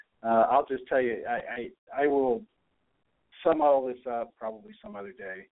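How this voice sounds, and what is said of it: Unexcited, subdued voice. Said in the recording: “You can hear in my voice, I'm not excited about it.”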